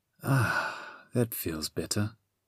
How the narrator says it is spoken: the Sphinx sighed

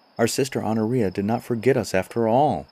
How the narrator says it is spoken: they cried in joy

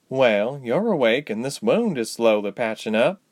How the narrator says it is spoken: the woman sighed

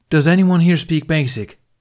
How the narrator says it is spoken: He asked in a loud voice

